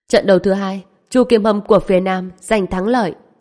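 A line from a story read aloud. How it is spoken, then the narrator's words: Loud announcement. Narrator (Vietnamese): người chủ trì cũng lớn tiếng nói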